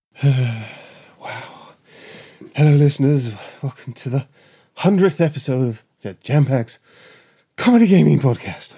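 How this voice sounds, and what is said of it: Out of breath, panting. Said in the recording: “Oh, so out of breath.”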